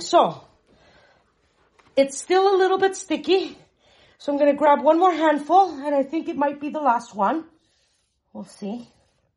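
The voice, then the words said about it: Out of breath speech. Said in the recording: “you can see that I'm out of breath”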